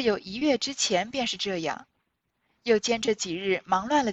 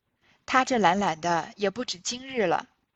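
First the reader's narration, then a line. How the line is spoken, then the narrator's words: Sighing. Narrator (Chinese): 平儿便叹道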